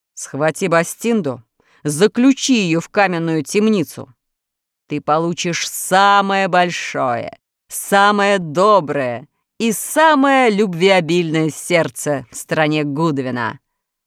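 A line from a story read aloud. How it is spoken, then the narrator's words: Monster growling. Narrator (Russian): прорычало чудовище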